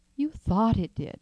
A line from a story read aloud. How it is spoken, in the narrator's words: said the old lady, soothingly